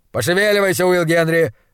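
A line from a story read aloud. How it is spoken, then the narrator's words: Barked. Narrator (Russian): рявкнул он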